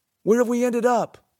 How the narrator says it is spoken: Alec called out

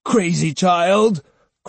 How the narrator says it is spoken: cried Uncle Gon

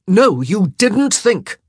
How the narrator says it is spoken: he snapped

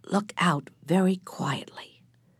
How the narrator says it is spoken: Hill whispered

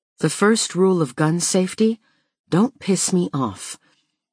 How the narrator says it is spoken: He says these words calmly, almost offhand

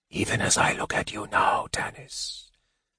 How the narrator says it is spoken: the mage whispered

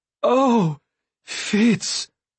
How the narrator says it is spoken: the fool cried

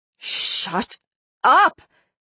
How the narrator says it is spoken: I spat again, feeling my face go red with anger

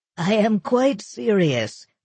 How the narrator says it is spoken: the doctor said, laughing

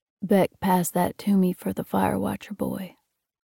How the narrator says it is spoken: Pa said sleepily

